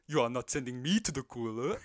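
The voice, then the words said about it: Imitates another person's voice. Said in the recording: “That's a terrible impression. ... That's actually pretty good.”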